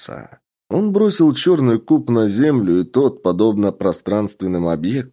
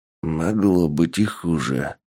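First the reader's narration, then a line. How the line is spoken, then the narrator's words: Mumbling, man just revived. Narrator (Russian): пробормотал пришедший в сознание мужчина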